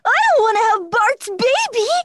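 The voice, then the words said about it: Cartoon schoolboy character voice. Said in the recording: “I'm playing Martin on The Simpsons now”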